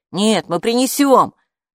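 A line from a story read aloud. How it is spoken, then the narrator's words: Frightened shouting, several voices. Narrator (Russian): закричали Оскар и девочка чуть ли не в страхе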